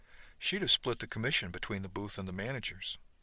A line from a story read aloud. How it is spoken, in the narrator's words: The captain smiled, though, and said softly